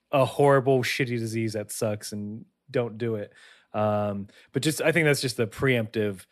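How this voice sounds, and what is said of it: Slightly husky, sick-sounding voice. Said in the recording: “there's a bit more coughing in this episode. If my voice is a little sultrier, I haven't become cooler. I'm getting.”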